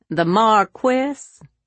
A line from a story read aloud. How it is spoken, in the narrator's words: he pronounced it in a mocking tone